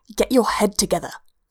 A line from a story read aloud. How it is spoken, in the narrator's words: Leia hisses at him, her tiny frame virtually quivering with righteous fury